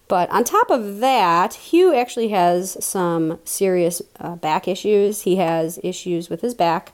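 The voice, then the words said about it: Unusually deep, congested-sounding voice. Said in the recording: “I'm getting over a bad cold, so I don't know if you can tell by my voice, I sound extra manly today.”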